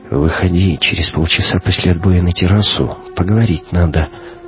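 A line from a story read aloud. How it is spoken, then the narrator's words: Whisper. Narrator (Russian): капитан шепнул Кате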